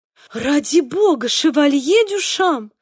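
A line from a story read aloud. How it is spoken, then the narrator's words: Feigned embarrassed exclamation. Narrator (Russian): воскликнул Диего, изображая крайнее смущение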